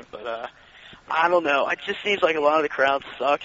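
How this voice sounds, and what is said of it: Hoarse, worn-out voice. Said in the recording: “my voice sounds horrible, but my voice is shot”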